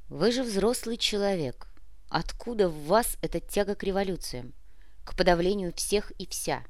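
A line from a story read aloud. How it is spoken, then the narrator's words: Soft, gentle. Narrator (Russian): по-прежнему мягко продолжил майор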